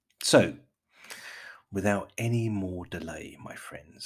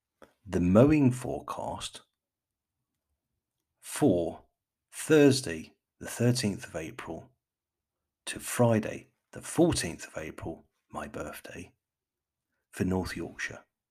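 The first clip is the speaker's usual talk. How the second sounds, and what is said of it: Put-on BBC announcer accent. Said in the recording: “let me just put on my best BBC accent.”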